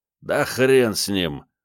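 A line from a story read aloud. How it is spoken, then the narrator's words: Gruff mutter. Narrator (Russian): буркнул вонючка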